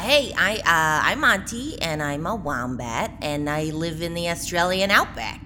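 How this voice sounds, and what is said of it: Wombat character with Brooklyn accent. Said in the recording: “They're from Australia, but it sounds sort of localized to Brooklyn”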